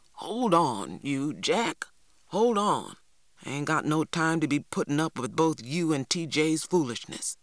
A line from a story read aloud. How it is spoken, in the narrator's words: Big Ma grumbled